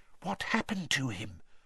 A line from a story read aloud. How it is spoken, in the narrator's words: Hermione whispered